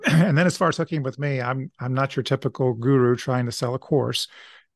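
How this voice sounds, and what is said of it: Slightly scratchy voice. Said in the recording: “my voice is probably a little scratchy”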